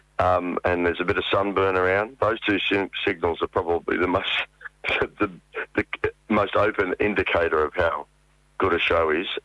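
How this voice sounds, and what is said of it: Congested throat. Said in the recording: “You can probably tell from my voice that I've got a bit of a congested throat”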